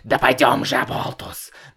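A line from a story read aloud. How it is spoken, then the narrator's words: Hoarse wheeze. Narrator (Russian): папа захрипел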